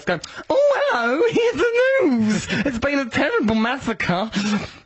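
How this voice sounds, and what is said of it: Camp newsreader voice. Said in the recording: “Do the news in a camp voice. ... Do it like that. Do the old news in that voice.”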